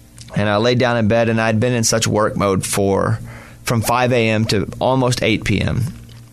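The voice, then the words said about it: Slightly worn-out tired voice. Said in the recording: “my voice is a little worn out today”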